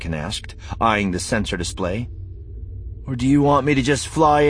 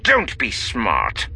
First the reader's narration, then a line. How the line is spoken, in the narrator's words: the other growled